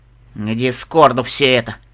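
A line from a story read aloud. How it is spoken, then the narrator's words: Through gritted teeth. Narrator (Russian): процедил наконец Тиара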